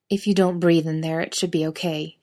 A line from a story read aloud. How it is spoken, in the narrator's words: he grunts to Jared